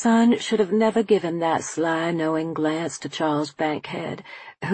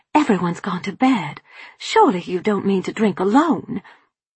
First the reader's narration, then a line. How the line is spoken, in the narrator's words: I hissed